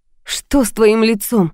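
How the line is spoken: Frightened question. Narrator (Russian): спросила я испуганно

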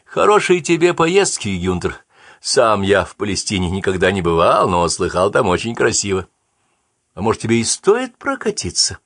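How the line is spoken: Cheerful suggestion. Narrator (Russian): весело предложил

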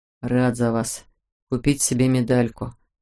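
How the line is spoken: Grumbled. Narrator (Russian): буркнул Эдя

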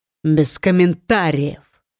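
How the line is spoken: Growling. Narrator (Russian): рыкнул

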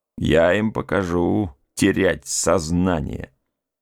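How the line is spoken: Gloomy muttering. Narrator (Russian): перевел дух, мрачно пробормотал

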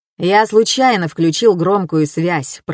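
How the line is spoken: Grumbling. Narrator (Russian): проворчал

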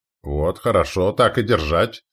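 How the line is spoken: Approving grumble. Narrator (Russian): одобрительно проворчал Фроуд

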